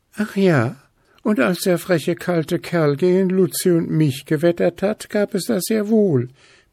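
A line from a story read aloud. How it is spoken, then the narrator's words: Excited squeak. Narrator (German): piepste Zwitschi aufgeregt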